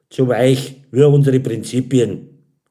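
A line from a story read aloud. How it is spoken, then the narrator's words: Giggling. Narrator (German): Karin kicherte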